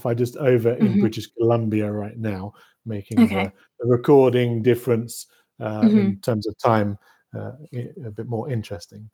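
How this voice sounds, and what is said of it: British English accent. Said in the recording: “you can tell by my accent perhaps that I'm from the same sceptred isle as yourself ... grew up in the UK, grew up in Norfolk”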